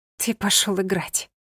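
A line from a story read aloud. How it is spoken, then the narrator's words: Resigned exhale. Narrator (Russian): обреченно выдохнула она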